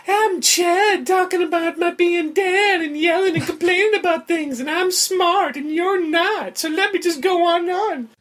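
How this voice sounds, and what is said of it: Imitates another person's voice. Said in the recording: “That impression was fantastic ... Absolutely fantastic.”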